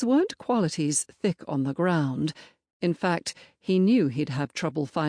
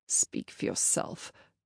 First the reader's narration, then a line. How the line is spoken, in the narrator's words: grumbled